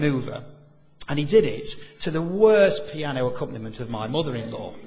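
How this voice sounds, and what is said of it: Usual voice. Nothing is said of it.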